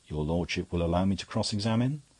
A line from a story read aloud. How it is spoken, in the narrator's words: in an extraordinary stillness and said quite calmly